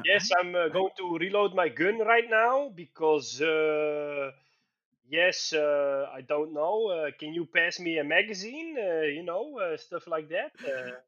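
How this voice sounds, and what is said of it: Put-on Dutch accent. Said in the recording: “Maybe we should talk with Dutch accents ... I cannot even fake that accent ... I'm trying really hard to do it ... a lot of effort goes into talking like this”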